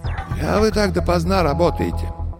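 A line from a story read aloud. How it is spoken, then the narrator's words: Muffled, distant, familiar voice. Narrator (Russian): Голос звучал глухо, будто издалека, но показался Горемыкину знакомым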